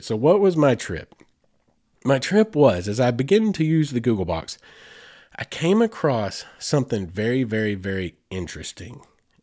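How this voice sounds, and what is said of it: Sick, weird-sounding voice. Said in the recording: “I feel like crap. I feel terrible ... forgive the sound of my voice ... forgive my voice. I know it sounds weird tonight”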